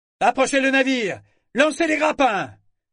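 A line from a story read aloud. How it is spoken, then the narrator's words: Shouted. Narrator (French): cria-t-il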